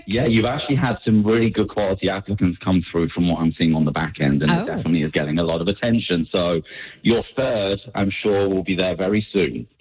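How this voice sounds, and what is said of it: British accent. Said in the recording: “wouldn't it be nice to have like a British accent on the show with us? ... a sexy British accent”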